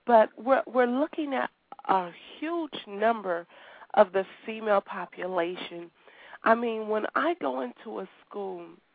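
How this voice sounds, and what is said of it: Slightly raspy voice. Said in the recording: “I've had a terrible cold ... my voice sounds a little raspy”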